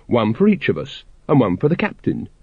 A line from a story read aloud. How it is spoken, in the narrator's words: said cheerfully